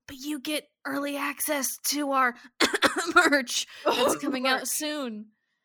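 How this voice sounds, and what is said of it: Whispering. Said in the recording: “I'm whispering right now if you can't tell”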